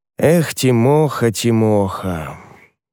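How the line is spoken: Old man sighing. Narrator (Russian): вздохнул старый Афанасий

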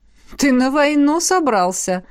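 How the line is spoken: Wry snort. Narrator (Russian): хмыкнула ректор

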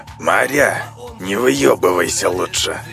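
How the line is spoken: Near hiss. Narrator (Russian): Чуть ли не прошипел он

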